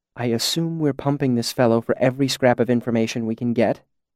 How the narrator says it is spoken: she said quietly over my shoulder

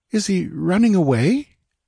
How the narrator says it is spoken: inquired Valeria uneasily

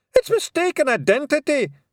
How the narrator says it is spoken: shouted Rob Anybody

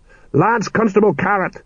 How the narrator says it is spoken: he shouted

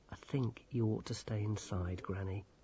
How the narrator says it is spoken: said Grimmer gently

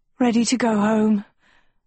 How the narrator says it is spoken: Agatha panted

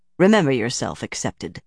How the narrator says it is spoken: Shiriam said coldly

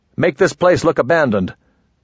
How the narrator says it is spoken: The lieutenant snapped

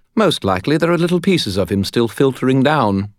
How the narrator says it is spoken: Bob said brightly

